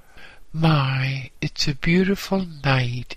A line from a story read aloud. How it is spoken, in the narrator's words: exclaimed A